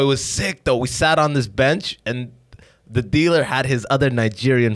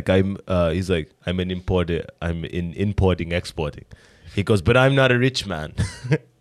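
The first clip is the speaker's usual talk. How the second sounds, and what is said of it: Put-on Caribbean-style accent. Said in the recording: “I think I'm doing a little bit of a Caribbean accent there”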